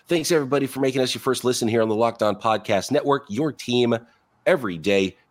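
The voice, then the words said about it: Raspy, sick-sounding voice. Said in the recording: “voice a little raspy and a little under the weather ... Got a little cough going”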